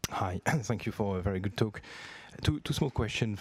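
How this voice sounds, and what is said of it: French accent. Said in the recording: “you probably can tell from where I'm coming from with my accent. So why you didn't choose to open a shop in Paris in France?”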